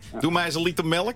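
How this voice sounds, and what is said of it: Poor imitation of Leiden accent. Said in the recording (Dutch): “Je hoort het, hè? Ik kom niet uit Leiden. Ik kan het niet.”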